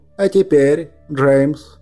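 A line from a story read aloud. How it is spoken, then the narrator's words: Plain. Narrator (Russian): сказал он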